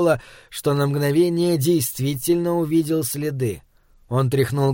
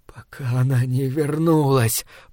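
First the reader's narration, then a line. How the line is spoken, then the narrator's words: Moaning. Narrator (Russian): простонал Пол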